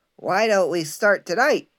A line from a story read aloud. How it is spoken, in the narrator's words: Freddy, the smallest and cleverest of the pigs, shouted